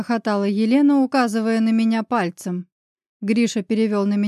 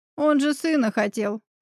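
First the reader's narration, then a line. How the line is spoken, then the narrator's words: Short laugh. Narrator (Russian): хохотнула она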